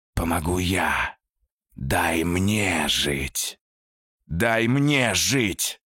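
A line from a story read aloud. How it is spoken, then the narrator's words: Trapped creature growling. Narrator (Russian): рычало существо, запертое внутри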